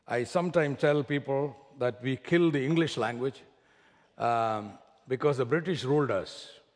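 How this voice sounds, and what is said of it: Heavy Indian accent. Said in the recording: “my Indian heavy Indian accent ... if you don't follow my accent”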